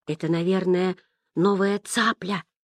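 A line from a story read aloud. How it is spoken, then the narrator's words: Whisper. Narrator (Russian): шепнул Ян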